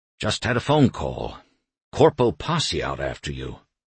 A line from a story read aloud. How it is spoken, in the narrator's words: muttering